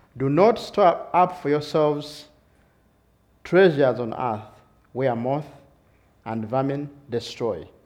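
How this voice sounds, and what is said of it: Strong accent, somewhat hard to follow. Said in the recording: “my accent is a little bit hard for you”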